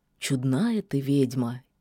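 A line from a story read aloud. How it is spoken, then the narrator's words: Quiet, sudden. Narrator (Russian): тихо сказал вдруг серый волк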